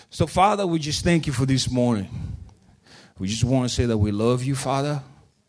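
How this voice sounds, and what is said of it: Mixed British-African accent with twang. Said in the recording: “It doesn't sound southern, does it? ... it's kind of British, and then every now and then there's a twang that creeps in there. And then there's this African thing.”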